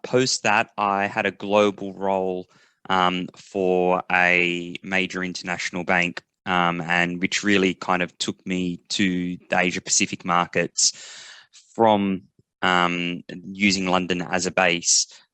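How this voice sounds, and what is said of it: Australian accent. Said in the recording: “you can hear from my accents as well, originally from Australia”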